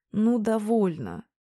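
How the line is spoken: Irritated, annoyed. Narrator (Russian): досадливо проговорил Стражинский, раздраженно

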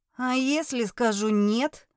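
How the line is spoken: Hopeless grumble. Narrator (Russian): пробурчала без особой надежды

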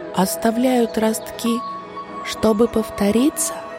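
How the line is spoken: Whisper. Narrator (Russian): прошептала Черешенка

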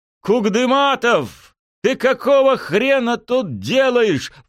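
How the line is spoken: Angry roar. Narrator (Russian): взревел начальник редакторов

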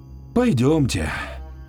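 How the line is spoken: Heavy sigh. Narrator (Russian): тяжело вздохнув, произнесла она

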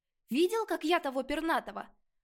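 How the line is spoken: Cheerful exclamation. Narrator (Russian): воскликнул Шор, как будто произошедшее ранее было не падением, а веселым трюком

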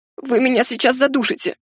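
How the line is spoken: Hoarse, choking. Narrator (Russian): Прохрипела я

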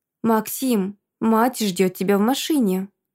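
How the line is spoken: Calm statement. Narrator (Russian): Спокойно сообщает эта горилла

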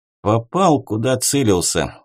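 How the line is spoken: Calm reply. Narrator (Russian): спокойно произнес я в ответ

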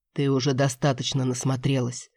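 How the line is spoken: Hoarse. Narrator (Russian): хрипло сказал Кэп

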